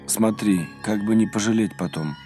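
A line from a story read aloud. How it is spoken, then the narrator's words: Weary. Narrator (Russian): устало сказал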